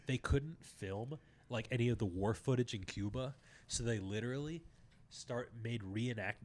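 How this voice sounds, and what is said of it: Voice going out, strained. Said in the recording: “my voice sounds like it's going out, but I'm like on the cusp”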